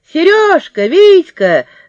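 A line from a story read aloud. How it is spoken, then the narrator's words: Shouting. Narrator (Russian): закричала сразу Люська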